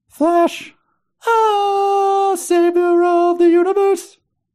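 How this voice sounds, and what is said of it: Sung imitation of another person's voice. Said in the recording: “my Freddie Mercury impression”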